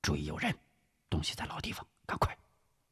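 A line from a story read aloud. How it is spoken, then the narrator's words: Low, urgent. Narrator (Chinese): 吴石低声说道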